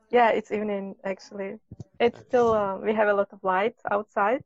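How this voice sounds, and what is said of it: Slight Russian accent in English. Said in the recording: “sounds a little Russian, you know, but you have a very nice accent.”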